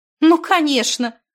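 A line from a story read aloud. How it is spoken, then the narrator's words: Burst of laughter. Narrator (Russian): расхохоталась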